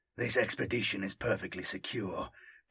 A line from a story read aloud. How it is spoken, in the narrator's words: Tarkas cut in, his voice tight